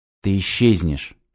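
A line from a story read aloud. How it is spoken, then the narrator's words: Whisper. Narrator (Russian): прошептал я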